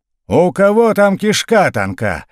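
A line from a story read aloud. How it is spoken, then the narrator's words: Yelling officer. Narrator (Russian): заорал урядник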